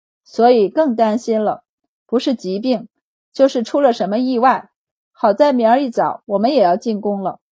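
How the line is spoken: Sighing. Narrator (Chinese): 白善便叹息道

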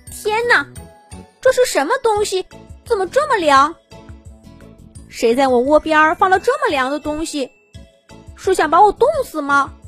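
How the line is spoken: Loud clamoring. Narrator (Chinese): 小兔子叫嚷了半天

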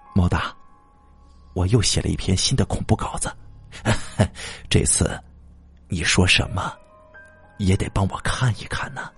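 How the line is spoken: Pleasant voice. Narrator (Chinese): 快递员声音悦耳的说

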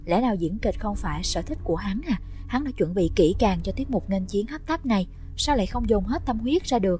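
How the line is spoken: Smiling. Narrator (Vietnamese): Đường Lệ Từ mỉm cười

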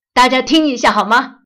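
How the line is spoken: Sudden loud shout. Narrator (Chinese): 爸爸突然大声叫道

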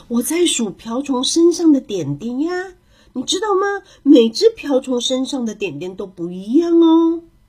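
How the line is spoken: Soft. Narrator (Chinese): 小兔子轻声的说

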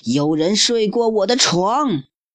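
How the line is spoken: Roaring father bear. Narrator (Chinese): 熊爸爸咆哮道

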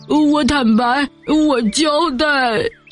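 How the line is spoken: Sobbing. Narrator (Chinese): 熊正在痛哭流涕的说

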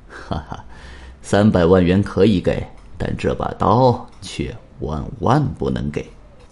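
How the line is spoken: Laughing. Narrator (Chinese): 王田一笑

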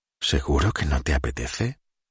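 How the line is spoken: Whispered. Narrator (Spanish): susurró

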